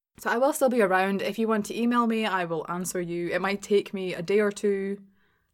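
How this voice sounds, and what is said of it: Glaswegian Scottish accent. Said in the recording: “My accent is always available to share. Spread the Scottish accent ... the Glaswegian accent.”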